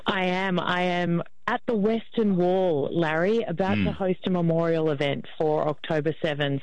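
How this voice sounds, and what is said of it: Distinctive Australian accent. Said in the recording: “I can't quite pick up the accent. Are you from New Jersey? Because it's very distinctive. ... Australia is the New Jersey of the Southern Hemisphere.”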